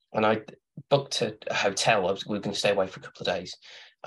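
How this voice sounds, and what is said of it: Slightly hoarse, fading voice. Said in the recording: “losing my voice a little bit”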